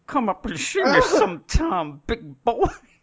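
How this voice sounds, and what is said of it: Awful imitation of another person's voice. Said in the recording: “awful Mae West impersonation ... Mostly, it's just come up and see me sometime”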